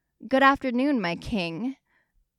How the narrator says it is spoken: M'Baku nearly shouted as if T'Challa was not only 50 feet away

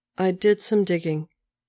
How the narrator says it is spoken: says Natasha

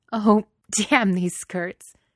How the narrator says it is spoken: says, still laughing

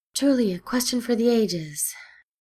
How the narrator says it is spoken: Steed said with a sigh

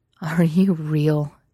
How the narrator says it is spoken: Elliot groaned

